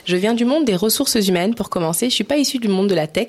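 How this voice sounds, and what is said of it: French accent from France. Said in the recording (French): “j'ai vécu 10 ans en France avant de déménager au Canada. Je pense que mon accent me trahit bien.”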